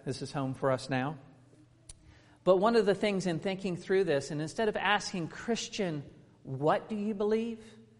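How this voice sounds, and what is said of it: Non-native English accent. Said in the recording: “you can tell by my accent ... as I'm not native”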